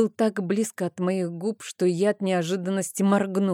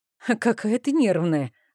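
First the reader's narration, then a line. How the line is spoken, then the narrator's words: Laughing. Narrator (Russian): рассмеялся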